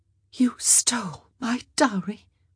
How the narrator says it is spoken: Sophie said, her voice barely more than breath

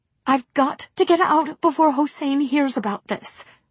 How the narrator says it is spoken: Mary pleaded

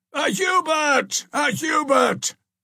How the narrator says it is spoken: shouted the populace, more interested in a known person than in a stranger

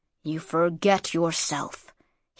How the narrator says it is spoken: he said in a low, harsh voice

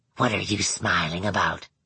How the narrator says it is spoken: Manx asked, his voice shuddering with hate

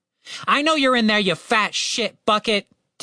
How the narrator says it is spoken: Tim shouted

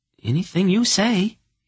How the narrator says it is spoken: he agreed hastily

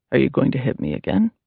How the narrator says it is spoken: David asked in a calm voice

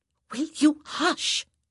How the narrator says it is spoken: Daphne hissed

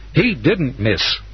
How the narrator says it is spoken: Randy said sharply

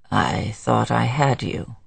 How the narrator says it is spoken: he said weakly

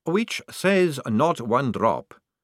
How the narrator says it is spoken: said the young man calmly

